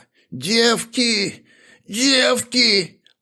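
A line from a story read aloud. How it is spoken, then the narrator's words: Moaning. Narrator (Russian): простонала она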